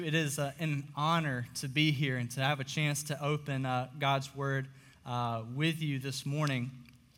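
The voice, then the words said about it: Slightly hoarse, strained voice. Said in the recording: “I'm losing my voice a little bit ... was just screaming ... know it's from high school football”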